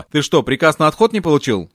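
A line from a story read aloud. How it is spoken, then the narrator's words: Plain question. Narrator (Russian): спросил его Шапошников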